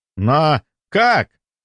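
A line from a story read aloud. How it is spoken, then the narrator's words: Booming voice. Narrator (Russian): прогремел Карпов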